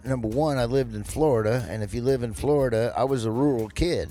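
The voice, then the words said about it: Southern American accent. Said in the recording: “I had Southern accent... you pick up the accent. Then I went to college in Georgia, and it solidified my accent.”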